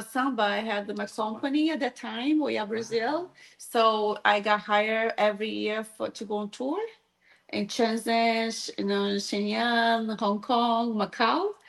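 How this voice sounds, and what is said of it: Brazilian Portuguese-accented English. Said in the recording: “if you're wondering where that accent is. ... I'm from Brazil, Rio de Janeiro”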